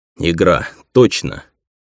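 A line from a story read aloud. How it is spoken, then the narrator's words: Weary. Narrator (Russian): так же устало вспомнил я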